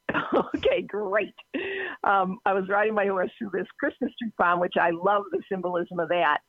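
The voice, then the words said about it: Boston accent. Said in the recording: “it's a Boston accent. Sorry, you're going to hear that... Love the Boston accent.”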